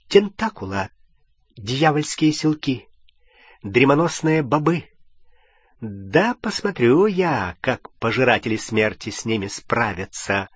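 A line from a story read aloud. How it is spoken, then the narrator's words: Muttering. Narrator (Russian): бормоча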